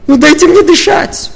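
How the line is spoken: Shouting. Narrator (Russian): прокричала мама

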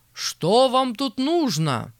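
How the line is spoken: Shouted. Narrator (Russian): крикнул пристав на 2 мужиков

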